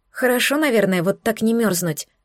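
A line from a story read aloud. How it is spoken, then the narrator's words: Embarrassed mutter. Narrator (Russian): пробормотала я, чувствуя, как смущение вновь охватывает меня с головой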